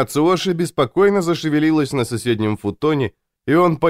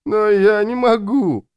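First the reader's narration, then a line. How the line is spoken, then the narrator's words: Whining, brother. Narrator (Russian): захныкал брат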